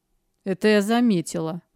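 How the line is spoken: Grumbling young woman. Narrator (Russian): буркнула девушка

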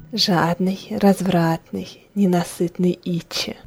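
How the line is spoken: Sultry catlike whisper. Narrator (Russian): шептала Лиши, облизываясь, словно кошка

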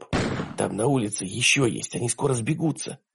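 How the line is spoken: Whisper. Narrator (Russian): прошептала Диана

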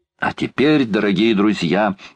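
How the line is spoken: Exclaiming. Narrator (Russian): воскликнул Паганель

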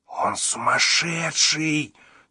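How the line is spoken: Anxious hiss. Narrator (Russian): тревожно прошипел Шустрик

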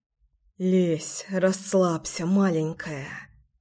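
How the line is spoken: Whisper. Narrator (Russian): зашептал

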